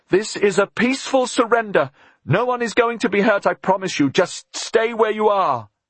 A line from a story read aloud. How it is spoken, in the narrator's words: Elizabeth shouted at the top of her voice